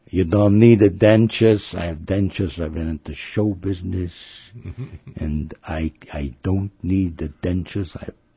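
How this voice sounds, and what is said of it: Put-on Jewish accent. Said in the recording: “In a Jewish accent”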